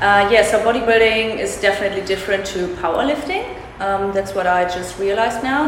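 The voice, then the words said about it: German accent. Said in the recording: “I love the way you say fat. Very German accent.”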